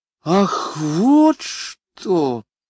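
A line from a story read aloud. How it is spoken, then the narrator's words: Said with deep sigh. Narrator (Russian): сказала пассажирка, глубоко вздохнув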